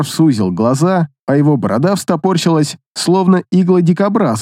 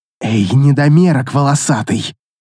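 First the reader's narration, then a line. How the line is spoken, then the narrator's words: Contemptuous hiss. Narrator (Russian): презрительно процедила Ашрана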